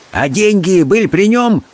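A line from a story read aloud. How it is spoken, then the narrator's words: Shouted. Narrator (Russian): крикнул он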